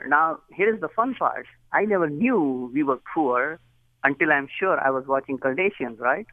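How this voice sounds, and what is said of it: Indian English accent. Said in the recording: “As you know, from my accent, I wasn't born in Dallas or Dayton. I was born in India.”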